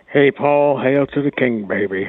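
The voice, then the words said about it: Raspy Elvis singer impersonation. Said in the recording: “my Elvis impersonation ... I thought you had a cold or something. Laryngitis.”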